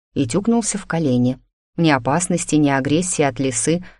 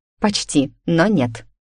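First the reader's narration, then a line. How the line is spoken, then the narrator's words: Amused snort. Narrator (Russian): хмыкнула я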